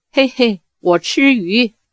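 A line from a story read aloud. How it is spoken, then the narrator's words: Silly giggle. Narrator (Chinese): 傻笑道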